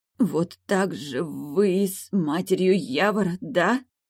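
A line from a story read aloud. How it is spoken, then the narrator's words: Stammering rustling whisper, widow. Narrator (Russian): Запинаясь, прошелестела вдовка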